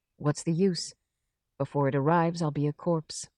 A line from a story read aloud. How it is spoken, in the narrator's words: Suddenly, Chekhov roused himself, became lucid, and said quietly